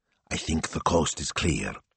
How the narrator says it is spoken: whispered

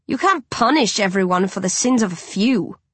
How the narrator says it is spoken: Rage growls

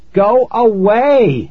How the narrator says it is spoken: I shouted

